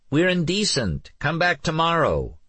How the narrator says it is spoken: Nikki called out

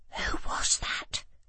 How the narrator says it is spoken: I whispered to Joe

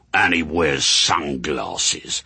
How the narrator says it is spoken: sneered Haster

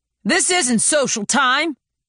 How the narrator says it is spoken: growled Hans

